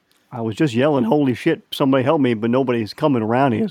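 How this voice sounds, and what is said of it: New York accent. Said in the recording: “I like your accent. Where are you from? ... All over New York, man. ... Brooklyn, Staten Island, Queens.”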